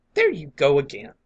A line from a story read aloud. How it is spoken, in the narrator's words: cried the other sharply